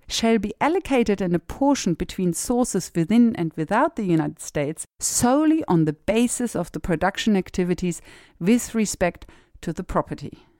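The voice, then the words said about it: Strong noticeable accent. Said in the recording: “my accent really came out there big time”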